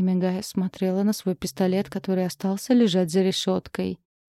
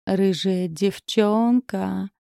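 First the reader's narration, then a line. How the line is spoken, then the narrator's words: Affected drawl. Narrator (Russian): протянул манерно Вальберти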